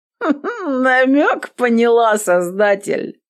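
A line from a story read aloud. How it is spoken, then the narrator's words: Drunken giggle. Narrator (Russian): Она пьяно хихикнула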